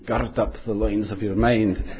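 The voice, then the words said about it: Put-on Scottish accent. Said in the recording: “I think that sounds much better in Scottish than in my accent. I'm going to embarrass myself”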